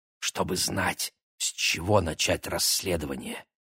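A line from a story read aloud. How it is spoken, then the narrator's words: Conspiratorial whisper. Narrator (Russian): заговорщически шепнул близнецам Игорь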